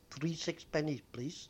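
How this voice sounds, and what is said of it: Very foreign-sounding accent. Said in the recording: “She spoke in a very foreign accent.”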